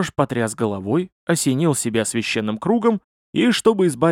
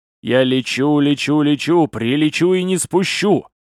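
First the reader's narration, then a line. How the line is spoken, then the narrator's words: Loud singing. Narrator (Russian): громко напевая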